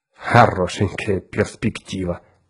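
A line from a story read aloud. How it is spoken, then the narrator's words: Caustic grumble. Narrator (Russian): едко проворчал Эзра Гурни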